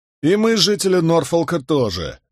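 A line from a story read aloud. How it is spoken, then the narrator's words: Sharp curt remark. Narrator (Russian): резко бросил Уильям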